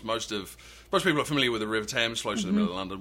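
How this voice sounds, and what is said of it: English accent. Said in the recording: “people can tell already from your voice, you're not from North Carolina... because of my accent, people tend to think I just got here... So you grew up in England.”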